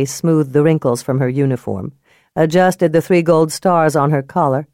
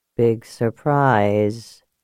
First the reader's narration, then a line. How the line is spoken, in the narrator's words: he muttered